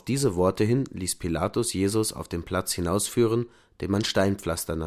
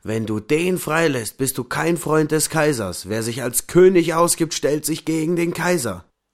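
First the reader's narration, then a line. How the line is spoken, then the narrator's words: Crowd shouting. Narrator (German): die Juden schrien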